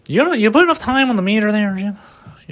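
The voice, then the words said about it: Puts on a character voice. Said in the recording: “Can't stop doing the voice.”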